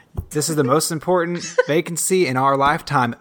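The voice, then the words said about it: Put-on country accent. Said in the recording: “I got the country accent. Dang it. ... I have added a country accent to this”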